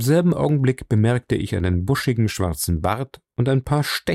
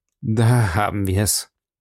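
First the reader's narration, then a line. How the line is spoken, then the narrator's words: Bitter, breathless, angry. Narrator (German): sagte Holmes bitter, keuchend und ganz blass vor Ärger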